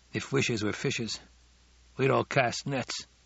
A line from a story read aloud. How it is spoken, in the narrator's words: he murmured